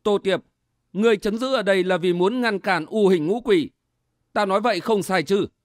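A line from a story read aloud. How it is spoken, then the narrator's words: Smug smiling. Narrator (Vietnamese): Phạm Hoài mỉm cười có vẻ đắc ý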